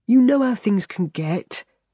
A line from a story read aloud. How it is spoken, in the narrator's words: Terry says wearily